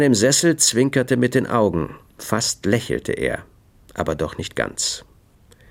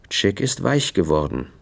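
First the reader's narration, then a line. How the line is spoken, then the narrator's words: Gentle. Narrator (German): sagte er sanft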